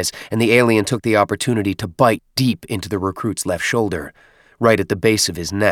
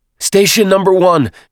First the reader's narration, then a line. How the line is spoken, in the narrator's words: shouted, rushing